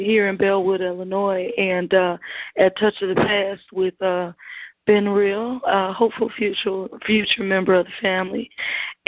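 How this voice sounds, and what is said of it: Worn-out, hoarse voice. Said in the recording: “that's where my voice went”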